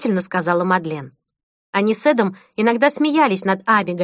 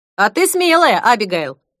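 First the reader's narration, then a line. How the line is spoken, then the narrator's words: Giggling. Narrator (Russian): хихикнул Эд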